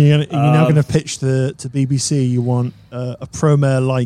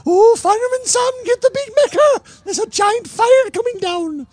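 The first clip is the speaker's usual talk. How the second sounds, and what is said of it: Cartoon child character voice. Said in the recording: “Is that your impersonation of Elvis? ... No, it's the kid that always starts the fires in Fireman Sam.”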